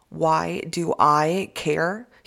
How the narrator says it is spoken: he asked, his voice tight with rage

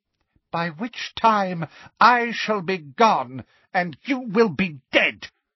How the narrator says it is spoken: spat Voldemort

